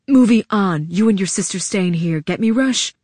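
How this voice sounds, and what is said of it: Low, serious voice. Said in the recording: “in a low, serious voice.”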